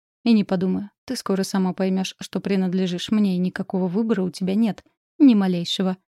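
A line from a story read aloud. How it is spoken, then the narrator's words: Smirking snort. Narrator (Russian): хмыкнул Ренар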